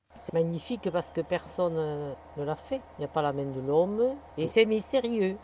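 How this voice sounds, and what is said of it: Sing-song regional accent. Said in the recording (French): “avec cet accent qui chante”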